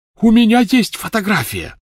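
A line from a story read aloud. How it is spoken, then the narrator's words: Shouted. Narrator (Russian): закричал Люпин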